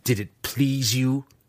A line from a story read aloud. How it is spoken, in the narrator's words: He spat